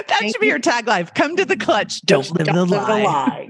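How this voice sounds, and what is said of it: Action movie announcer voice. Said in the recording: “Especially when you say it like that. ... That's like an action announcer voice.”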